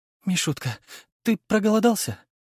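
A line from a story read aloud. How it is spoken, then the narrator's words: Sobbing with effort. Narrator (Russian): всхлипнула она, тяжело поднимаясь с пола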